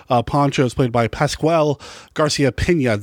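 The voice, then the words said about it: Put-on Spanish accent, unrolled R's. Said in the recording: “That's my Spanish accent for the day. I can't roll my R's”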